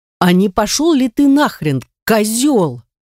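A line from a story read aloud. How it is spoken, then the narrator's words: Roaring like a siren. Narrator (Russian): Взревела я не хуже пожарной сирены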